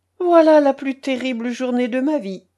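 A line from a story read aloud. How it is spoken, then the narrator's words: Joyful exclamation. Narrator (French): s'écria Paul, vraiment joyeux de voir ses difficultés terminées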